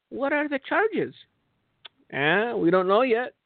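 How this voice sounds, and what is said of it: Failed Turkish accent sounding Spanish. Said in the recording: “I can't do a Turkish accent, so I sound Spanish”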